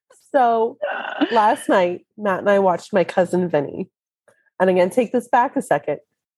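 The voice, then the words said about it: Weak, partly lost voice. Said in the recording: “I don't have a voice. I didn't have one when I woke up, but it's kind of come back a little bit.”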